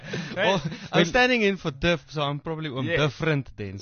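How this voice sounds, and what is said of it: South African accent. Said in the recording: “Sorry about his accent. He's from Centurion.”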